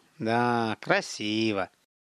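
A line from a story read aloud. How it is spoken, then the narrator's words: Sighed. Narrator (Russian): Михаил вздохнул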